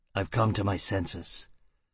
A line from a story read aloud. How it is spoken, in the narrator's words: Foyle answered bitterly